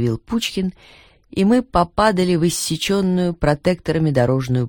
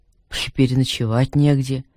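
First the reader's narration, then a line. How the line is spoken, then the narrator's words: Sigh. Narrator (Russian): вздохнул Пучкин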